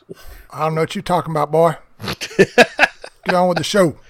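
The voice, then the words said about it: Put-on country Bubba-style accent. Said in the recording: “Did your accent change after you took a couple of drinks? ... we party hard with accents”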